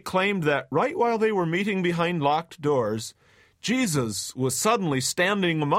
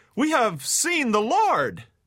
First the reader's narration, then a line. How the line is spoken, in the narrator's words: bursting with excitement, exclaimed